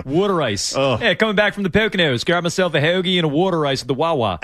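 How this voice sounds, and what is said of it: Mock Philadelphia accent. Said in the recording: “the worst accent in all of America”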